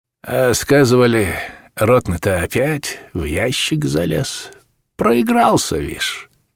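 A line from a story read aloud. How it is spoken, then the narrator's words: Lazy soldier's voice. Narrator (Russian): сказал один из солдат ленивым голосом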